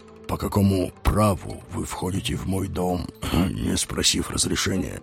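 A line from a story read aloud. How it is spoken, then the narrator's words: Quiet and clear. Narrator (Russian): Говорил он тихо и внятно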